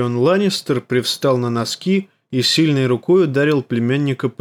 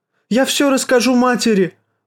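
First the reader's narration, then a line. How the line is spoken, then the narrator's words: Exclaimed. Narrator (Russian): воскликнул Джоффри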